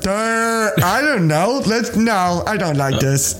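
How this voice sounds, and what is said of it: Dopey dumb-sounding voice. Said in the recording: “That's my dumb voice.”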